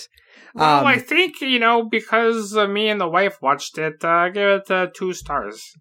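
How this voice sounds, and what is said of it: Imitates another person's voice. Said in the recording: “my imitation. That's why I don't do voices.”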